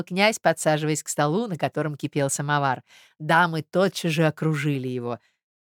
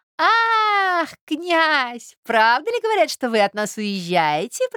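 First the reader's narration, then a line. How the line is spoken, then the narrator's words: Squeaky voice. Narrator (Russian): пропищала Фелисата Михайловна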